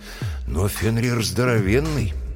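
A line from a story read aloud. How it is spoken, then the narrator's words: Sighing. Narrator (Russian): Брэм вздохнул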